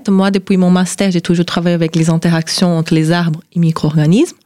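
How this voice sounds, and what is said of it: Brazilian accent speaking French. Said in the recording (French): “moi, je suis brésilienne, de sud-est du Brésil ... On ne le devine pas du tout à votre accent”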